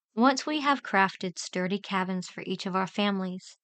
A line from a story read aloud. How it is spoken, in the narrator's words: I replied decisively, my tone filled with assurance